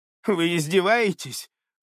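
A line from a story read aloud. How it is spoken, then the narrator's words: Woman snorting. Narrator (Russian): фыркнула женщина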